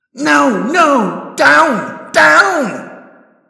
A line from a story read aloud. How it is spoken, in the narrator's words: screaming